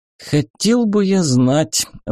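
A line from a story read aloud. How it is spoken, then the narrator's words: Sighing. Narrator (Russian): вздохнул я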